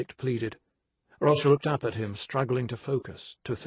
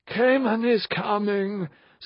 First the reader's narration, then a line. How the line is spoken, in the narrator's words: said the voice miserably